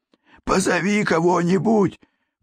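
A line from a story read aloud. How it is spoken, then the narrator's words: Hoarse rasp. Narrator (Russian): прохрипел он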